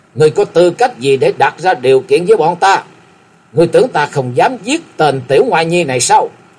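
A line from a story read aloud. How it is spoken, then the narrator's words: Roaring. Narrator (Vietnamese): Lão đại gầm lên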